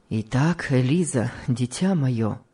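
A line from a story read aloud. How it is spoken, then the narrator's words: Gloomy, somber. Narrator (Russian): мрачно сказал ей муж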